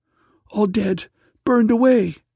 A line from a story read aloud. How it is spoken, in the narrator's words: cried the daughter